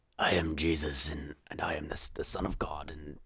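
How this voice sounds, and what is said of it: Whispered imitation of a character. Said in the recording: “Jesus kind of does that whole whispering thing... Why do you have to whisper like that?”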